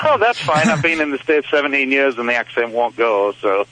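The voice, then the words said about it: Slight English accent. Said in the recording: “you have a little bit more accent than the Michigan accent. You have kind of European accent... I'm from England... Yours is just very slight.”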